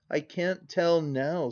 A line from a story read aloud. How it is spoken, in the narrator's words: sobs she